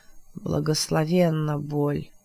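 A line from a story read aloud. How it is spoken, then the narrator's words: Hoarse. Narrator (Russian): сказал Морган сипло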